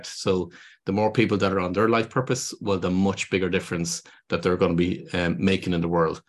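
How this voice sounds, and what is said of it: Irish accent. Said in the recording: “your accent. I love your accent. ... I wonder what it would be like if I moved to Ireland”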